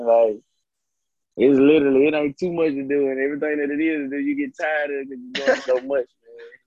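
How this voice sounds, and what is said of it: Country Southern accent. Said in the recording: “y'all got your little country, little accent”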